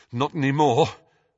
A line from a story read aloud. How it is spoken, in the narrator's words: panted Harry